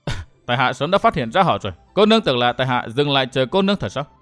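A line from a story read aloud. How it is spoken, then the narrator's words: Sneering. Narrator (Vietnamese): Phía Thiên Cửu cười khẩy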